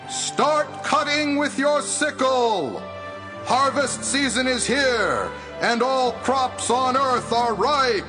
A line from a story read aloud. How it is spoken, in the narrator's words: An angel came out of the temple and shouted